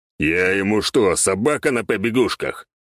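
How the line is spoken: Growling. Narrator (Russian): прорычал бес

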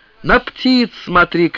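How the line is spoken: Shout. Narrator (Russian): крикнул он

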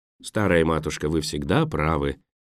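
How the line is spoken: Gentle teasing. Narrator (Russian): мягко поддразнил доктор

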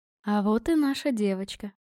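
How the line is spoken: Tender, smiling mother. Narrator (Russian): ласково улыбнулась мама

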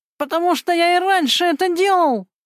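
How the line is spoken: Yelling in pain. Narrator (Russian): завопил Гена, получив еще один удар носком его ботинка по своему колену

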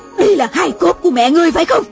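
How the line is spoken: Woman shouting. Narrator (Vietnamese): Mụ la lên

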